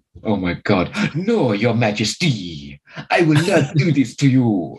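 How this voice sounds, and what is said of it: Exaggerated fake French accent. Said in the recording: “that's a proper cod French accent”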